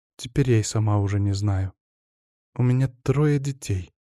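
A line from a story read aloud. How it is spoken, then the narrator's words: Dull flat voice. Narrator (Russian): все еще тусклым голосом сказала Скворцова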